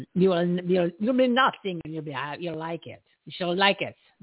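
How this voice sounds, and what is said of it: Put-on German accent. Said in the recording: “I got to work on my accent... My German's off today. My German is off.”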